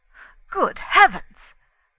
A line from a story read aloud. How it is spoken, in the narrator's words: cried Inglethorpe